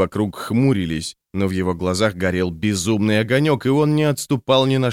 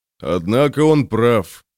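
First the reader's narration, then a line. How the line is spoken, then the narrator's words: Grumble. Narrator (Russian): пробурчал Броуд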